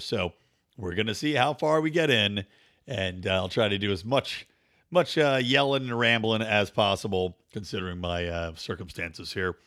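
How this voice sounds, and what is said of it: Weak, partly lost voice. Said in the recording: “you may be able to tell my voice is still not all the way back ... I lost my voice ... having a cold ... I lost it again ... it's just still not there”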